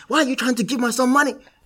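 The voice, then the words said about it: Poor put-on Nigerian accent. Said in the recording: “in a Nigerian accent ... Obviously, that's a terrible Nigerian accent. ... I expected better, man. ... but it's terrible.”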